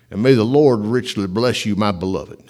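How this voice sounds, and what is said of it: Southern-accented J. Vernon McGee impression. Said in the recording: “J. Vernon McGee spoke with a southern accent ... just imitating him”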